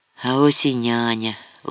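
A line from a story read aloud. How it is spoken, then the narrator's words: Gentle reproachful whisper, old woman. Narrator (Ukrainian): лагідно і водночас докірливо прошепотіла стара жінка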